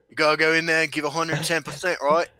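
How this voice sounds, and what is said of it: Imitates another person's voice, Australian accent. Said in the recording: “you just did my accent, but Australian”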